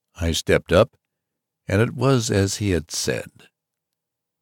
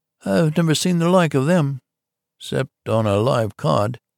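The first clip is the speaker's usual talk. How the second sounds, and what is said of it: Extremely puzzled voice. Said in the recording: “in an extremely puzzled voice.”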